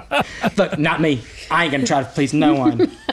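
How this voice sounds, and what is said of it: Put-on accent. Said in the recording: “that's the only other accent I know.”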